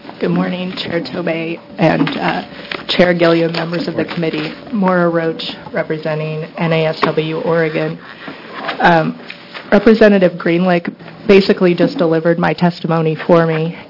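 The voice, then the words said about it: Hoarse, strained voice. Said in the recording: “I'm losing my voice ... Sounds like you've got a bit of a cold.”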